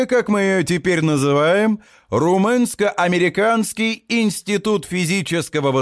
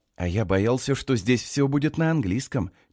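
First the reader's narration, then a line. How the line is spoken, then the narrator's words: Low whisper. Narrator (Russian): низким шепотом говорит парень в очках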